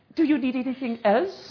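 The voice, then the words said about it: Put-on English accent. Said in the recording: “would get the English accent.”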